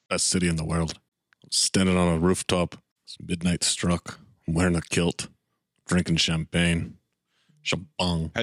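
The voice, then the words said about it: Put-on Scottish accent. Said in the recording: “The listeners want me to use my Scottish accent ... see if it turns Australian like last episode”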